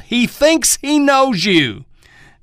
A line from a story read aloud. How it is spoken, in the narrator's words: Elmer yelled